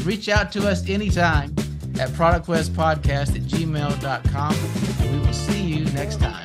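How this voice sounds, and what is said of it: Smooth radio-style voice. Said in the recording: “got an excellent like radio voice. ... good voice. ... You've got a great voice.”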